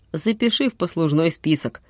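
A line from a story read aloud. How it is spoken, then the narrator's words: Snorting. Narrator (Russian): фыркнул Юрик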